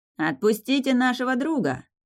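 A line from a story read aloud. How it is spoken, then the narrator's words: Shout. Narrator (Russian): снова крикнул Иржи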